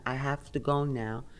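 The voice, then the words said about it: Heavy German accent. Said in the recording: “The German man came with a very heavy accent.”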